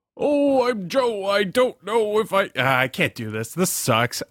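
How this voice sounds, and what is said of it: Impression of a friend, Santa-like voice. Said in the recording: “here's my Bill, doing Joe ... you sounded like Joe trying to be Santa Claus”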